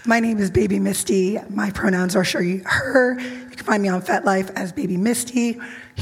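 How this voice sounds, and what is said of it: Hoarse, strained voice. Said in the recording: “I'm using an organic voice changer called laryngitis.”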